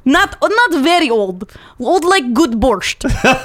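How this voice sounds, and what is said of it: Deliberately bad Russian accent. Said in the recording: “my terrible Russian accent”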